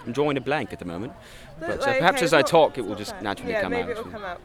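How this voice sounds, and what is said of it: Put-on posh British accent. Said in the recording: “my posh accent for this character, I don't think is as good as my lower classes accent”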